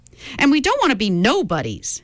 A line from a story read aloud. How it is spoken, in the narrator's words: shouted another